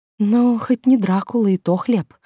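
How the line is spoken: Relieved sigh. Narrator (Russian): вздохнула, радуясь

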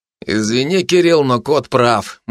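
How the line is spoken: Gloomy agreement. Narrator (Russian): мрачно согласился с ним Егор Глыба

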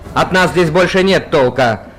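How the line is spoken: Shouting over explosions. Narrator (Russian): крикнул Юстиниан посреди непрерывного треска взрывавшихся с внешней стороны болтов

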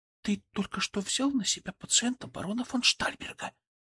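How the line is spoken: Quiet, savoring words. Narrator (Russian): произнесла она тихо, словно пробуя слова на вкус

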